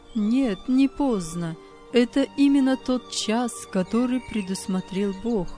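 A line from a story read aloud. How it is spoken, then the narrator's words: Plain. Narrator (Russian): сказал Андрей Николаевич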